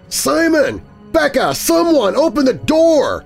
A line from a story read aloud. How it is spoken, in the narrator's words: I shouted